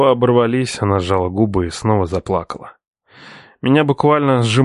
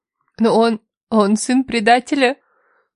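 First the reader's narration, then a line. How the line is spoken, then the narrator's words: Sobbing. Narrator (Russian): всхлипнула она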